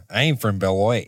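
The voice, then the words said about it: Put-on Wisconsin accent. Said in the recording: “whenever I have to snap into a Wisconsin accent, I use this town name.”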